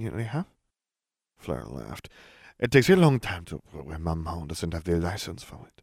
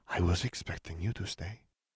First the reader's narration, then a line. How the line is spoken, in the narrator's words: she murmured